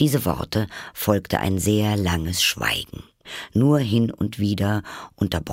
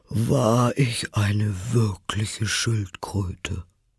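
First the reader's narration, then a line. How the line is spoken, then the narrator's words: With a deep sigh. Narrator (German): sagte die falsche Schildkröte endlich mit einem tiefen Seufzer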